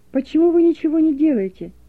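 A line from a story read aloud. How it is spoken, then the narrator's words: Shouting girl. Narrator (Russian): закричала девушка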